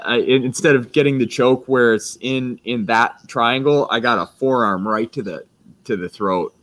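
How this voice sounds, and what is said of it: Froggy, hoarse voice. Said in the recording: “That's why my voice sounds so froggy ... My voice is actually sounding better than it was.”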